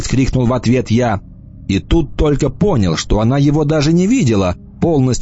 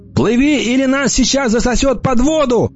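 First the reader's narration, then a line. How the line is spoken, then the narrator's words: Shout. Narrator (Russian): крикнул я Эмме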